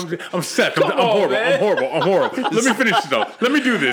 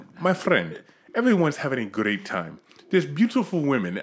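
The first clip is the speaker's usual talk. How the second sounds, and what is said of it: Put-on accent imitating another person. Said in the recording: “you got the fucking accent ... It's part Ricardo Montalban”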